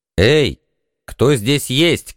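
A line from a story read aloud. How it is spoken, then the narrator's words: Shout. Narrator (Russian): крикнул я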